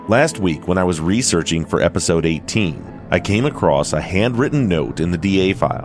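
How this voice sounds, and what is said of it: Hoarse, strained voice. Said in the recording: “I'm still suffering from a little bit of laryngitis from all the screaming I did at her game on Tuesday ... My voice is not what it usually is”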